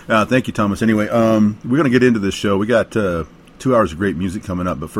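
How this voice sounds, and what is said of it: Worn-out, hoarse voice. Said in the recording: “my voice is kind of shot, but kind of cool for blues”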